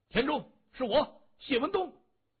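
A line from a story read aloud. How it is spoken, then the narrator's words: Loud reply. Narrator (Chinese): 谢文东大声的回着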